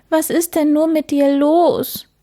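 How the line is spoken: Sobbing. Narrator (German): schluchzte der Hase

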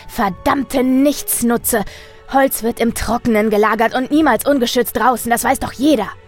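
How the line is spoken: Shouting. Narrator (German): Er schrie

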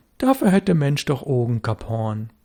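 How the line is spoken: Said calmly. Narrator (German): Störtebeker sagte ruhig

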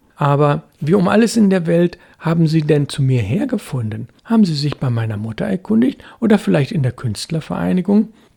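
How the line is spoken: Laughing. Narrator (German): Gerd lachte

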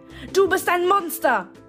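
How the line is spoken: Roar. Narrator (German): brüllte ich

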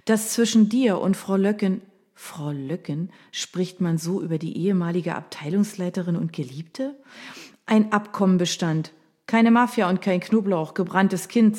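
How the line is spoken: Plain. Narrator (German): sagte mir Anna

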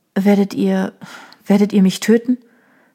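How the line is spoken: Trembling question. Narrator (German): fragte sie mit bebender Stimme

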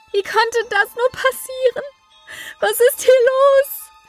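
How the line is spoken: Grief-stricken scream. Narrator (German): schrie sie, ergab sich ihrer Trauer und ihrem Schmerz

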